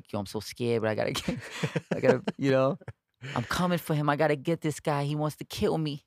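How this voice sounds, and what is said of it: Imitates another person's voice. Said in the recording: “that's a good Iron Mike impression”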